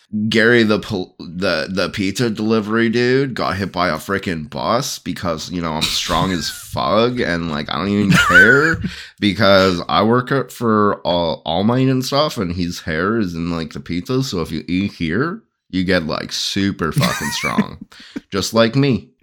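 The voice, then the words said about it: Hardcore surfer dude voice. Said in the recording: “character voice ... He's your hardcore surfer guy.”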